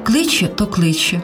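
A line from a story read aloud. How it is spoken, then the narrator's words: Calm. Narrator (Ukrainian): спокійно промовив той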